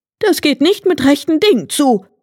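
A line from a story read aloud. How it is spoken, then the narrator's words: Calling out. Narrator (German): rief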